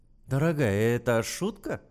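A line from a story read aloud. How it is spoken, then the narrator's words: Giggling. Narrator (Russian): хихикнул он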